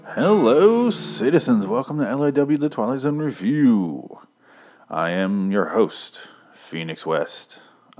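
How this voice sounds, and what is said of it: Announcer voice. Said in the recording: “doing my announcer voice”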